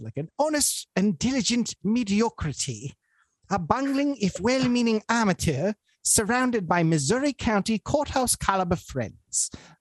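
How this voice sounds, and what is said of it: Bad posh English accent. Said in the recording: “in a very posh English accent ... when I do a bad accent”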